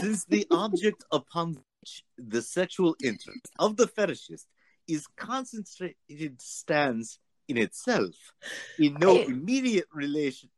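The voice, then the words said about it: Exaggerated bad German accent. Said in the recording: “bring on a bad German accent ... Too German, huh?”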